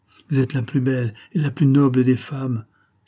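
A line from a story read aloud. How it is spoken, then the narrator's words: Exalted exclamation. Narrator (French): s'écria avec exaltation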